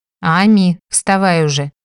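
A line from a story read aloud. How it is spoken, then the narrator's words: Stern. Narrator (Russian): строго проговорила Мартиша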